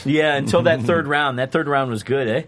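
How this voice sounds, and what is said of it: Sounds Canadian, says 'eh'. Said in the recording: “you just sounded Canadian.”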